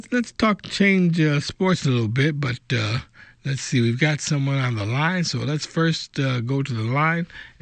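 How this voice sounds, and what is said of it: Slightly raspy voice. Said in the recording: “Sound like you got a little raspy voice there, but you're still coming in strong.”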